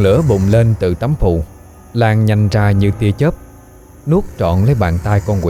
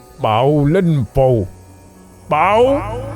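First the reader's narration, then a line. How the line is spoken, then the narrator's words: Loud shout. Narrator (Vietnamese): hét lớn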